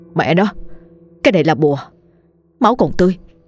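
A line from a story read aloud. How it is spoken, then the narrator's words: Terrified trembling mutter. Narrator (Vietnamese): Dần sợ hãi tột độ, run rẩy lẩm bẩm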